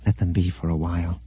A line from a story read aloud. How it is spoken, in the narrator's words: Leia said softly